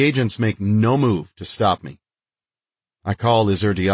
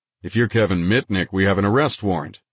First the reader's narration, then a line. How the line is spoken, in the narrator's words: Burns says